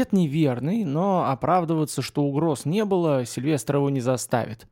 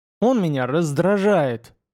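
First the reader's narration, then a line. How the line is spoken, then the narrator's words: Angrily spat. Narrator (Russian): зло выплюнул Вем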